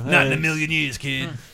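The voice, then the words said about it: Imitates another person's voice. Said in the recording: “you're really good at that impression”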